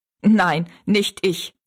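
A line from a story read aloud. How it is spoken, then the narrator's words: Laughing. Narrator (German): sagte Jings und lachte wieder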